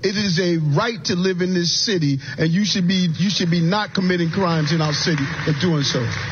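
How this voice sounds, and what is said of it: New York accent. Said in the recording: “that's his New York accent, which is screwing that up”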